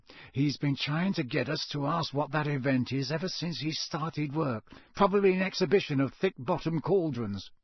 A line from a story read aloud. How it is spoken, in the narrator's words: Ron muttered to Harry and Hermione